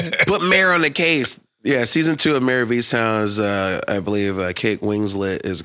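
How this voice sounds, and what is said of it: Usual voice. Nothing is said of it.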